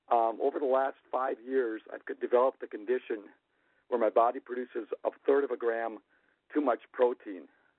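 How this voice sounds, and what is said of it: Slightly congested, cold-affected voice. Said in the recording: “I have a little bit of a cold”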